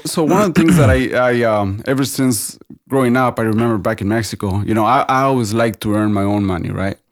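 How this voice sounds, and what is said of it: Mexican Spanish accent in English. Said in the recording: “I just couldn't get rid of my accent ... That's stuck with me.”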